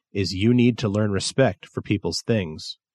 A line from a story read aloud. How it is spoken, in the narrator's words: I said, very calmly